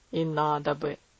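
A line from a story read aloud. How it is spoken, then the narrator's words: Stern. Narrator (Russian): строго добавил дедушка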